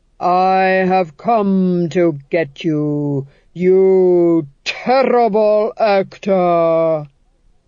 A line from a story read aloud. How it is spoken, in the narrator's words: he intoned, each syllable falling into place like a coffin lid